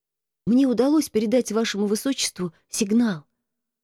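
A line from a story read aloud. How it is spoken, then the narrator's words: Whisper. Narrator (Russian): прошептал Марко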